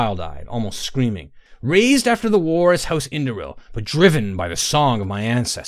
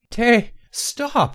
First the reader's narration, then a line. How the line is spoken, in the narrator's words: Inara sobbed